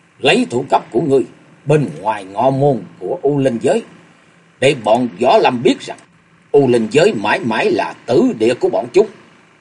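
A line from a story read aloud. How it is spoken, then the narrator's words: Harsh, gritted voice. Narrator (Vietnamese): Thập tứ lang gằn giọng nói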